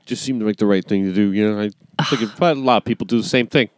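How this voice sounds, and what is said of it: Imitates another person's voice. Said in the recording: “That's a great impression of that guy.”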